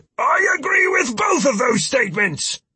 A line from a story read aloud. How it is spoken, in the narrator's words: Philip shouted